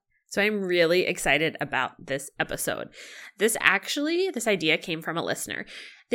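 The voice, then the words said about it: Slightly off, congested-sounding voice. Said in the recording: “my voice sounds a little funny. I am allergic to Illinois.”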